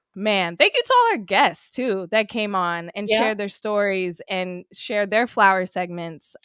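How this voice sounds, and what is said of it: English accent. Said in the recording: “With that accent, you can come in as an English player.”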